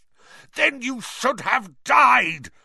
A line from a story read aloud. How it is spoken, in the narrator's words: roared Black